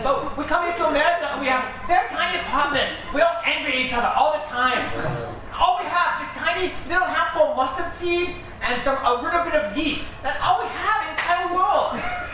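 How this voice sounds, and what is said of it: Thick put-on foreign accent. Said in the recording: “he can't understand a word you're saying... your accent”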